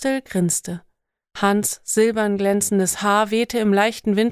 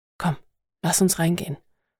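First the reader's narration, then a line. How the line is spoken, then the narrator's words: Whispering. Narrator (German): flüsterte ihr zu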